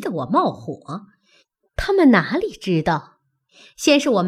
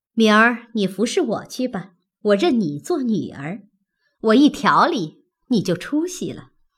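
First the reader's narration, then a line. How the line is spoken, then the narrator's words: Smiling. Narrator (Chinese): 向小红笑道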